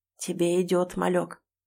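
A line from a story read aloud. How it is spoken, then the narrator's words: Hoarse voice. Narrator (Russian): севшим голосом сообщает Эмиль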